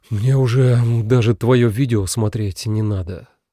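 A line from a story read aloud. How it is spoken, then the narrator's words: Sigh. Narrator (Russian): вздохнул Миша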